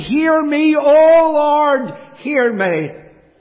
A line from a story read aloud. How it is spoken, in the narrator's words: he cried unto God and he said